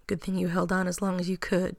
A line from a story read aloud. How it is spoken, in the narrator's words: John murmured